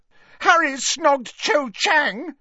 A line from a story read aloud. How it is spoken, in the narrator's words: shouted Ginny, who sounded close to tears now